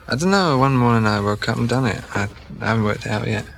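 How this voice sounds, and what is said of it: Faint, mixed British-Scottish accent. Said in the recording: “you've got the least Scottish accent ... I've got English and Manchester and Scottish and loads of accents”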